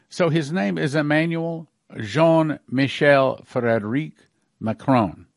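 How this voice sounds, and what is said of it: Attempted French accent. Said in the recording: “That's as good as I can do my French accent.”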